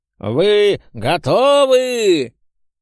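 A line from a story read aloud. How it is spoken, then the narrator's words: Loud booming call. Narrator (Russian): Призывно завопил Штифт зычным и мощным голосом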